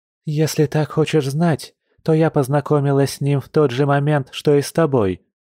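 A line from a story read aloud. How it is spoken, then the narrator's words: Sighing. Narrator (Russian): вздохнула Маша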